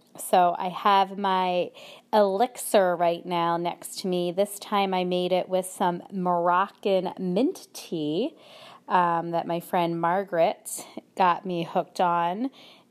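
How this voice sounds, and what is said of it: Slightly hoarse, cold-affected voice. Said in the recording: “I still have a little bit of a cold ... this cough thing was just lingering and I've been losing my voice still a little bit”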